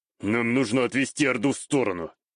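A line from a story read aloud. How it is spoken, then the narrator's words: Through gritted teeth. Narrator (Russian): сквозь зубы ответил мне мужчина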